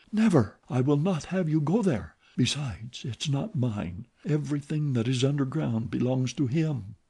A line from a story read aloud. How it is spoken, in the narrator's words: She in a trembling voice whispered